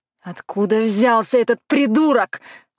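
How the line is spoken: Angry bark. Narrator (Russian): рявкнул в сердцах

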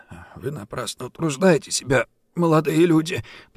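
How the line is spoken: Hoarse wheeze. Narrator (Russian): прохрипел он

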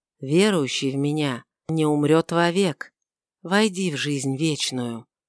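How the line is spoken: Enchanting whisper. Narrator (Russian): чарующий голос прошептал

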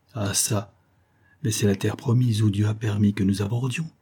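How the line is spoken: Plain. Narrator (French): dit Yursko

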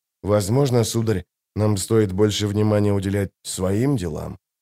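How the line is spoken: Whisper. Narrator (Russian): прошептал Дестриан

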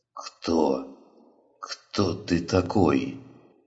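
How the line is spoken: Hoarse wheeze. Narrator (Russian): прохрипел он

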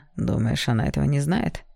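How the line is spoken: Snort. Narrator (Russian): хмыкнул он

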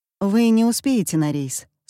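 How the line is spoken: Calm. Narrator (Russian): спокойно говорит Эмма

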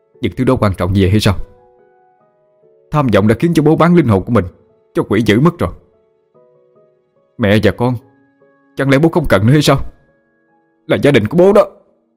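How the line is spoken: Anguished furious shout. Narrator (Vietnamese): Sự thất vọng và đau khổ cùng cực khiến cho anh hét lớn

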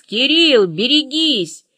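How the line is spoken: Full-voiced yell. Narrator (Russian): а я заорала в полный голос

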